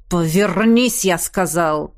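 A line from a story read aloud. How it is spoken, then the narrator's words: Barked. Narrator (Russian): рявкнул мужчина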